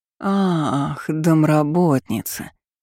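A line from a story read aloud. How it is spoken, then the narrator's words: Envious drawl. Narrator (Russian): протянула бывшая начальница завистливо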